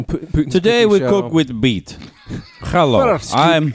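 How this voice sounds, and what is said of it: Mock Russian accent drifting into German. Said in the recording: “I was going to do a German accent ... I'm doing German again ... It's a mess”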